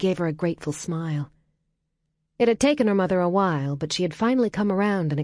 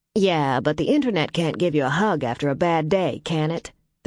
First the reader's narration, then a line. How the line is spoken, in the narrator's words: their mother said